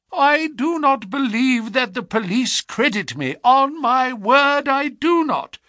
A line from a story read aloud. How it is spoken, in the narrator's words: said he in a wailing voice